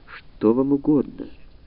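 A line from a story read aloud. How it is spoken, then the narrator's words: Gentle request. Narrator (Russian): врач мягко просил ее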